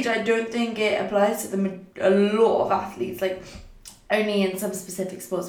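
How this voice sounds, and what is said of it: Funny-sounding voice, sore throat. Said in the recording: “my voice sounded a bit funny. I do have a very sore throat at the moment, and my throat is extremely swollen, and I'm feeling a bit tired as well”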